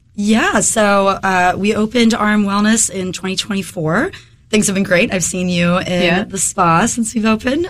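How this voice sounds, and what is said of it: Slightly hoarse voice. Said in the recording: “I'm getting over a head cold right now. ... my voice is a little hoarse”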